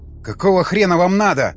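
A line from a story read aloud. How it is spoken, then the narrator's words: Yelling. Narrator (Russian): заорал Васнецов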